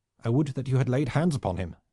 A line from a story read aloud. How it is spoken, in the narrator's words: said the prince angrily